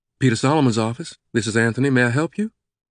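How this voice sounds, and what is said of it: Southern American accent. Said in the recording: “The familiar southern accent answered.”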